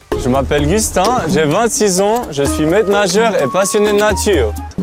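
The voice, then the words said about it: Swiss French accent. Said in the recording (French): “on dirait un accent suisse. ... Accent suisse.”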